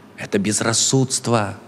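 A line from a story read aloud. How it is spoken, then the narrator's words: Plain. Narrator (Russian): ответил рассудок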